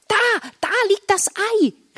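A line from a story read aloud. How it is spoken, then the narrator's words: Excited call. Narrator (German): rief Marla aufgeregt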